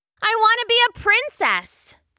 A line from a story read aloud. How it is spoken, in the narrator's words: Trudy cried